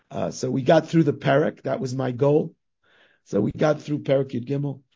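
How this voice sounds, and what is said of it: Hoarse voice giving out. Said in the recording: “my voice is giving out ... my cold and my sore throat”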